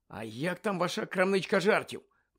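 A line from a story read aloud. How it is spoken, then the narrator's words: Muttered. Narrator (Ukrainian): пробурмотів Гаррі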